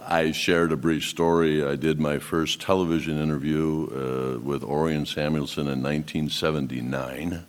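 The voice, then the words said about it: Deep smooth broadcaster-style radio voice. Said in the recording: “you have a radio voice.”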